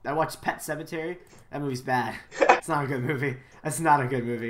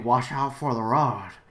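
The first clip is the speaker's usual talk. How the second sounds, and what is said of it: Old man's funny accent. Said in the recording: “an old man, though, who speaks in a funny accent ... Just like that ... best impression ... that's exactly what he sounds like”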